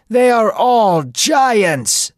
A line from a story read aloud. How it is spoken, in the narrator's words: some people shouted